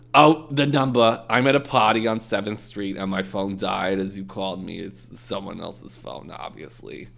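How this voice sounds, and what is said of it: Put-on accent for a character. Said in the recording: “I hate your accents.”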